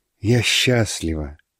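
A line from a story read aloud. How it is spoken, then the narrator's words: Speaking through tears. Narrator (Russian): сказала сквозь слезы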